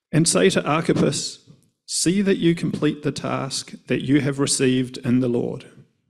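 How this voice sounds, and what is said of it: New Zealand English accent. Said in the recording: “Everything does sound better with a New Zealand accent.”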